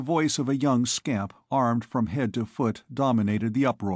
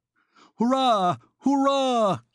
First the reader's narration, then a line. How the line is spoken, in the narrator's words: he was shouting